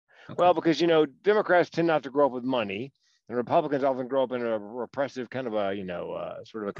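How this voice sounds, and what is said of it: Southern American accent. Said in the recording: “I hear you have a Southern accent yourself.”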